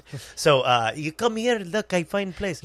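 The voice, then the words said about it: Hard-to-place foreign accent, broken English. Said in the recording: “Maybe South Africa. Somewhere. He's got the accent you can't figure out. Maybe Iceland.”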